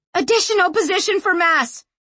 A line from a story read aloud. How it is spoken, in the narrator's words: Sanchia screamed at it